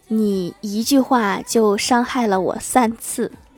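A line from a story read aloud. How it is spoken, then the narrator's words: Lost for words, slow. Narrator (Chinese): 李逍遥突然语塞，然后缓缓地看了我一眼，说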